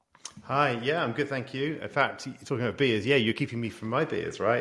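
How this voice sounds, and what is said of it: Speaker's own accent. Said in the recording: “despite my accent”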